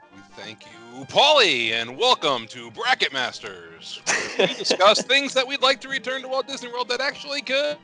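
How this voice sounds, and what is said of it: Game show host voice. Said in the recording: “game show voice”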